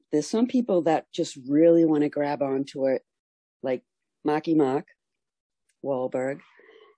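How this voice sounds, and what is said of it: Boston accent. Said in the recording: “that accent, is that a traditional Boston accent?”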